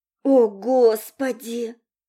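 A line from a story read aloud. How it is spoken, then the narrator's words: Silent inner groan. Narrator (Russian): молча простонал Серж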